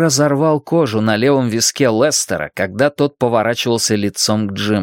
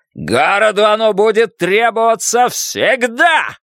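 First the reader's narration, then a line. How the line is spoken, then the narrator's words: Roar. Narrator (Russian): проревел он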